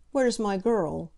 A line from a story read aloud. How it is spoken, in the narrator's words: he said irritably